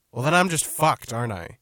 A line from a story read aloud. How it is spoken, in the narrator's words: she said in a raised voice